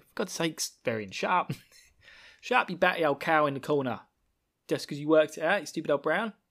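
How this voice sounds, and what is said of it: Put-on Cockney accent. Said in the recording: “this weird accent ... It's like I'm some sort of weird Cockney East Ender, but I'm not.”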